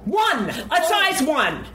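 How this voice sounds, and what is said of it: Yelling. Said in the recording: “sorry for yelling.”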